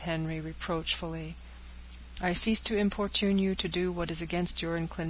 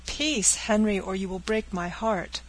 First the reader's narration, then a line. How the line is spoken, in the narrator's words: cried the agitated girl